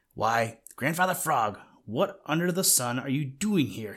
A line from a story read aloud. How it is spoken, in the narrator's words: he shouted